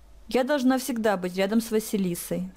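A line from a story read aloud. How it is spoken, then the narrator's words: Plain. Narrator (Russian): сказала та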